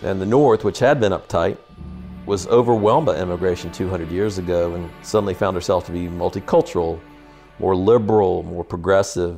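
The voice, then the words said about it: Soft non-rhotic Southern Tidewater drawl. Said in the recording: “my accent, coming from Richmond, I've got a form of what is called the Tidewater accent... It's called a non-rhotic accent. It's very soft. You drawl, you hold your vowel, and you pull the R out of the word.”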